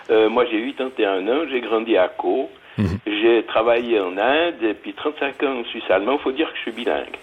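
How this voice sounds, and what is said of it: Pronounced Hauts-de-Montreux Swiss French accent. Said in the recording (French): “j'ai gardé en français mon accent des Hauts-de-Montreux ... un accent non. assez prononcé”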